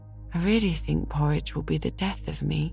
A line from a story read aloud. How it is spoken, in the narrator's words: concluded Paul, with a sigh and a meditative air